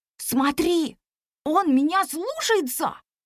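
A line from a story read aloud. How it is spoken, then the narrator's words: Excited child's whisper. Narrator (Russian): взволнованно зашептал непоседа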